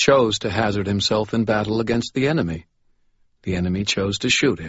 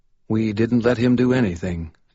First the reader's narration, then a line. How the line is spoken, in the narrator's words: Jake replied calmly